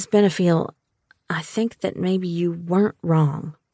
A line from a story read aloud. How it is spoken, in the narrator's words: I said softly